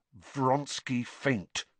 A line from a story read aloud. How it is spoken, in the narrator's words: said Harry through gritted teeth